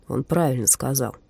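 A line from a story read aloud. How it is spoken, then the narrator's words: Mutter. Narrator (Russian): буркнул Доминик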